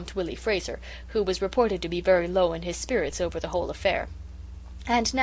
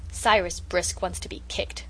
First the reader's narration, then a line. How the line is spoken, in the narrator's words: growled Felix